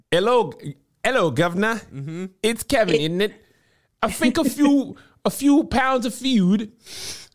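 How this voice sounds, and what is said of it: Put-on British accent. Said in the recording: “Oh yes, I could be doing my British accent.”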